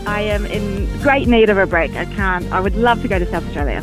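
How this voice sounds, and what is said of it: Slight Australian accent. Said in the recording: “I'm picking up a wee accent there. Are you possibly Australian? ... I am Australian.”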